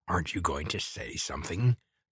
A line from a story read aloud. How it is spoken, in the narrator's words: the old man croaked